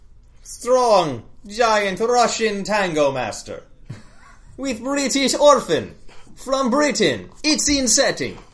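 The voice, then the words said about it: Bad put-on Russian accent. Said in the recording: “I got most of my Russian accent from Moose and Squirrel ... our bad Russian accent”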